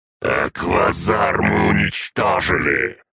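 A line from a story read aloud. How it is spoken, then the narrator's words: Growling. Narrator (Russian): прорычал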